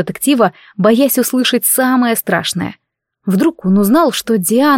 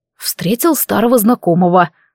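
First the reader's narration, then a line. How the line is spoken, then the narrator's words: Angry smirk. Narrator (Russian): зло усмехнулся Рейджин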